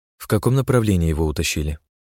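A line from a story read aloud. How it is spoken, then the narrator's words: Soft. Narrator (Russian): мягко спросила Ирина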